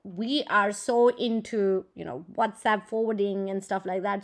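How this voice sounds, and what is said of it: Indian English accent. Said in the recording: “As you may already recognize by my accent, I come from an Indian heritage.”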